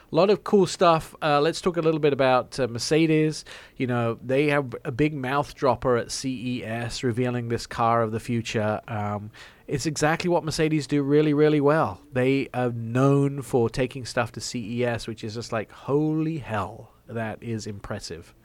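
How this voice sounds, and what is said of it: English accent. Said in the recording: “it does not understand my English accent. ... we don't understand your English.”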